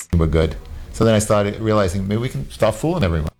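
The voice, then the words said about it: New York accent. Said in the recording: “New York accent.”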